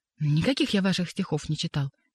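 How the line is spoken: Nervous exclamation. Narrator (Russian): нервно воскликнул посетитель

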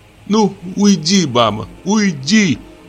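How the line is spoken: Sobbing. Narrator (Russian): зарыдала Надя

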